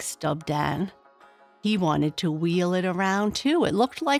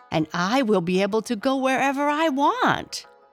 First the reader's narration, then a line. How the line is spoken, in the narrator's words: said Chisket excitedly